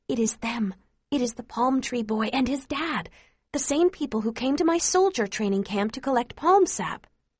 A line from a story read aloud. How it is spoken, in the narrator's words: whisper quietly to her